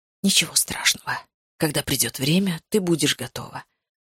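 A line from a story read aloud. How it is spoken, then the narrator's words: Whispered. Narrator (Russian): прошептал он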